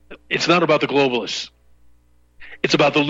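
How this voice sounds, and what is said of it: Usual voice. Nothing is said of it.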